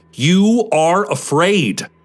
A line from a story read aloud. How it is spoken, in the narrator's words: he shouts